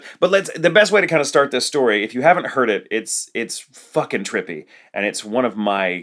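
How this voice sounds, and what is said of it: Usual voice. Nothing is said of it.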